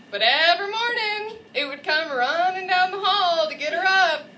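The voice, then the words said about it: Exaggerated East Texas twang. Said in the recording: “I really overdo my grandmother's East Texas twang.”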